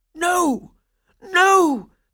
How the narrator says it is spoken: cried Coppelius

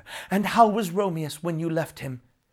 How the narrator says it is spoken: she begged to know

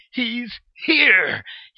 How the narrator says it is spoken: he would yell

